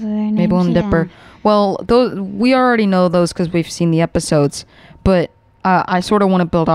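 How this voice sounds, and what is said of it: Usual voice. Nothing is said of it.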